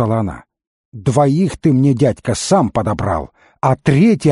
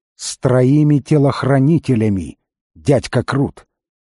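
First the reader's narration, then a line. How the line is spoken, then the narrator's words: Unexpectedly calm correction. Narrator (Russian): неожиданно спокойно поправила девушка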